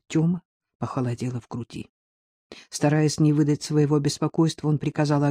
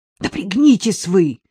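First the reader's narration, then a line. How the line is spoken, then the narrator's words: Sharp shout. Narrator (Russian): прикрикнул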